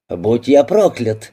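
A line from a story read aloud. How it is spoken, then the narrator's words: Exclaiming. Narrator (Russian): воскликнул бизнесмен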